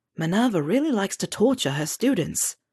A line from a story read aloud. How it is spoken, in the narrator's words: whispered Neville next to her